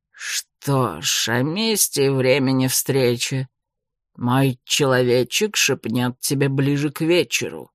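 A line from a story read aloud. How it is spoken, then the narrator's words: Said through gritted teeth. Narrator (Russian): процедил Джо Киршу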